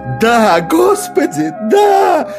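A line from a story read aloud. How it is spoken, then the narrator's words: Congregation shouting. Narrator (Russian): вопили прихожане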